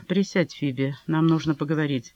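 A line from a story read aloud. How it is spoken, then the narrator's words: Calm. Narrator (Russian): он спокойно сказал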